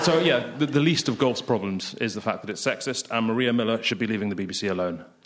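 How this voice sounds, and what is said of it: Edinburgh Scottish accent. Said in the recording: “I grew up in Edinburgh, as you can tell by my accent.”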